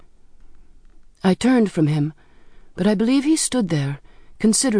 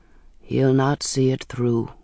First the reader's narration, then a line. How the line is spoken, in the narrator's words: he said softly